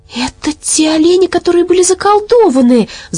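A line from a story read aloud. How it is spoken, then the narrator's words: Excited exclamation. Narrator (Russian): взволнованно воскликнула Мэри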